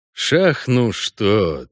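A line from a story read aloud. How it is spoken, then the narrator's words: Annoyed sigh. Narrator (Russian): вздохнул Геральт с досадой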